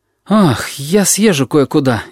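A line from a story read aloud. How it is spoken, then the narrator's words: Frightened. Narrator (Russian): испуганно говорит он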